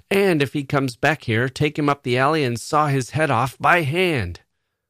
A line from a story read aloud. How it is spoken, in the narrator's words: Bill was shouting to Chuck